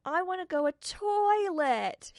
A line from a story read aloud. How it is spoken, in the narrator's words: yelled